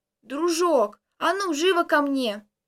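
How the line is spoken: Loud clear hoarse shout. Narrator (Russian): Она четко и громко, сиплым голосом прокричала

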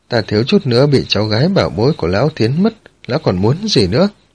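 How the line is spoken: Snorting, roaring with laughter. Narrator (Vietnamese): Miêu Kinh Vân hừ một tiếng, cười lớn hai tiếng, ôm bụng mà cười ha hả

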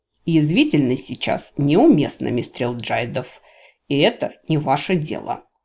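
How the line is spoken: Commandant's growl. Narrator (Russian): рыкнул комендант

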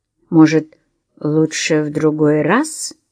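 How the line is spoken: Slow. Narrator (Russian): медленно проговорил он

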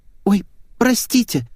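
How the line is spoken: Young woman babbling. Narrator (Russian): залепетала прихорошенькая девушка лет 20

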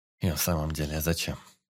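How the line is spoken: Mumbling. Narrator (Russian): пробормотал участковый

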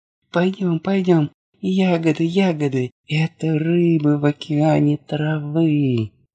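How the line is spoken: Joyful child's yelling. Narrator (Russian): малышу Дади, который радостно вопил

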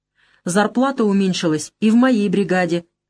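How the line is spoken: Sharp. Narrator (Russian): резко сказал Свиридов

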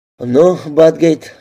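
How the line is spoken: Sighing. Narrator (Russian): вздохнул Алин

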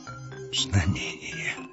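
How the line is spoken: Whispered. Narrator (Russian): шептал Легиар

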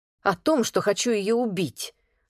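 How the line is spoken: Snapping. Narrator (Russian): огрызнулась девушка

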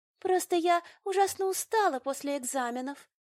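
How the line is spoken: Breathed out. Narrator (Russian): выдохнула блондинка

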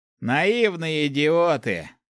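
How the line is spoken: Scoffing snort. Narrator (Russian): хмыкнул в ответ собеседник

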